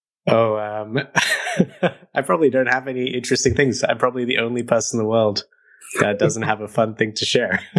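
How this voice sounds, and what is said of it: Diluted Australian accent. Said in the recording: “a slightly weird accent ... He actually is Australian ... his accent is all diluted and weird”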